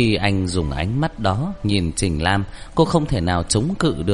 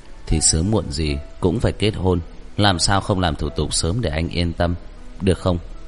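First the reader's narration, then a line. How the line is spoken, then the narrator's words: Tender, gentle voice. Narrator (Vietnamese): Lôi Lạc Thiên nói với giọng dịu dàng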